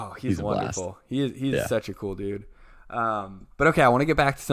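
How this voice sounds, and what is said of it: Usual voice. Nothing is said of it.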